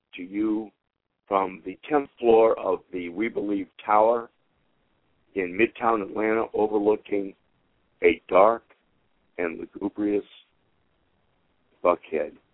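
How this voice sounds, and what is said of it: Scratchy, hoarse voice from illness. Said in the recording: “my voice is scratchy. I've got what everybody in America seems to have”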